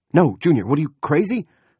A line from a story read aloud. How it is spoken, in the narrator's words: Roop shouted